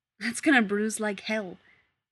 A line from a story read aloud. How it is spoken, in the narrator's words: Rodney blurts out